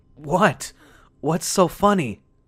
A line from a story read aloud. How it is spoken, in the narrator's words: asked, still panting